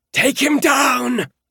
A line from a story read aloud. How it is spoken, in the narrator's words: Kellen shrieked